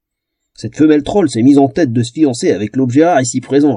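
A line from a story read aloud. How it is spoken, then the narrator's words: Sneering snicker. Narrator (French): ricana Lougar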